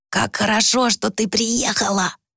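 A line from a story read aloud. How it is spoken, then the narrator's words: Hoarse, smiling. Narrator (Russian): прохрипела она, широко улыбаясь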